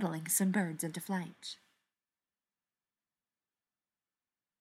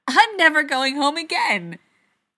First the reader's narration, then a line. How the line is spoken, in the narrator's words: Lorelai laughed and shouted